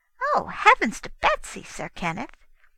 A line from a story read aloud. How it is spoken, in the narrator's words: Her Majesty exclaimed